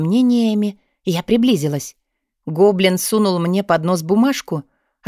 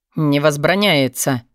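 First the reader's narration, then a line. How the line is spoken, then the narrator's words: Growled reply. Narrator (Russian): прорычали в ответ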